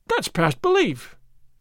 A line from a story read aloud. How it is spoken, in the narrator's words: Don Diego cried